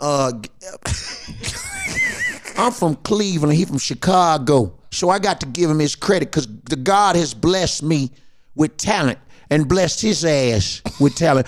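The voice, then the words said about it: Imitates another person's voice. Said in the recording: “In the words of Steve Harvey ... imitating Steve Harvey”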